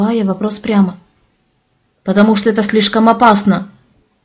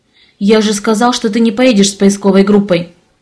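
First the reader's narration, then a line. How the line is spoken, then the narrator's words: Sharp. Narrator (Russian): резко заметил Александр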